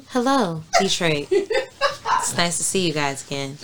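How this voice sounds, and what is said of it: Newscaster voice. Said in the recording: “newscaster voice”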